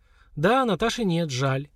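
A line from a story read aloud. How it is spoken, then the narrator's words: Sad. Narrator (Russian): грустно кивнула Лера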